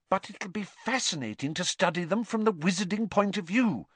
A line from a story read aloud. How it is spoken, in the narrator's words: said Hermione earnestly